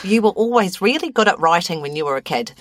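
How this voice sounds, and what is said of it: Put-on New Zealand accent. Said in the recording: “I'm doing New Zealand accent.”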